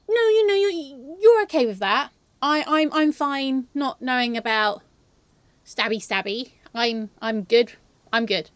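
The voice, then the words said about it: English-sounding accent. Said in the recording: “Is it the accent? ... I sound English”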